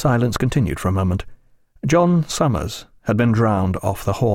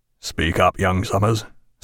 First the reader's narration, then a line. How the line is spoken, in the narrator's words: said Jack in a low voice